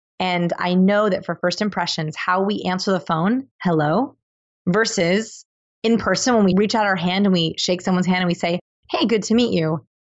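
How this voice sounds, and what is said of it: Slightly hoarse, losing voice. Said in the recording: “I'm losing my voice a little bit”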